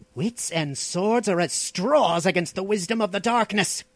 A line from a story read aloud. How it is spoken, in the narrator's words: growled the Stygian